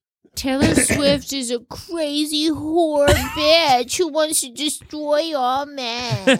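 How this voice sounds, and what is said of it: Imitates another person's voice. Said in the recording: “a good impression.”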